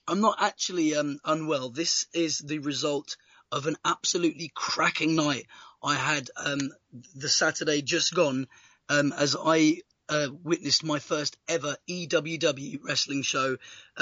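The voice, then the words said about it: Hoarse, strained voice. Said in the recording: “as you can probably hear from the tone of my voice, I'm a little bit hoarse at the moment”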